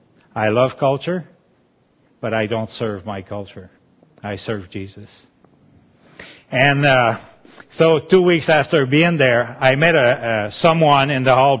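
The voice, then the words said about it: Quebecois French-accented English. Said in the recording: “we learned English there, but I kept my accent. You know, Quebecois love their culture.”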